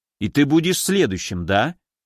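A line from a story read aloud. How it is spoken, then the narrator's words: Smirking snort. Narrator (Russian): хмыкнул Уральский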